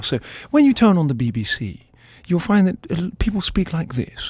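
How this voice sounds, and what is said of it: Put-on BBC received pronunciation accent. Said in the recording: “I'm going to do my BBC accent now ... received pronunciation, so-called Queen's English”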